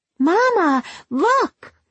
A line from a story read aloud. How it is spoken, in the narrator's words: she cried